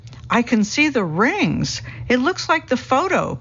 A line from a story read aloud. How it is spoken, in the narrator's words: people exclaim with delight